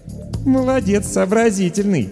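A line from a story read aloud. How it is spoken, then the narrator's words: Short laugh. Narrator (Russian): хохотнула Даша Воронина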